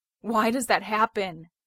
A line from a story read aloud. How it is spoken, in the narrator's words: He gasps, heaving like he's run a marathon